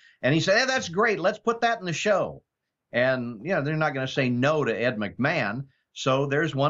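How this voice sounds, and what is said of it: Usual voice. Nothing is said of it.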